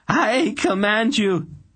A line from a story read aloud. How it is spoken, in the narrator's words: The words faltered as he gaped in horror